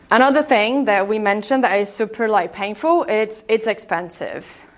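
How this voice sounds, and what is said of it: Brazilian accent in English. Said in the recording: “I'm Brazilian, by the way, if you haven't noticed my accent.”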